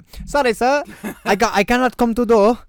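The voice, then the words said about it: Put-on foreign accent. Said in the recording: “I was about to do an accent.”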